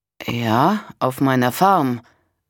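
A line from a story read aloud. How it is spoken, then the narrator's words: Hesitant answer. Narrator (German): antwortete Walter zögernd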